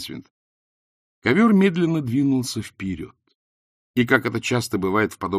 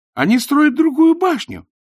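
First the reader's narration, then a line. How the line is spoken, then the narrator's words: Exclaimed. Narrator (Russian): воскликнул Найджел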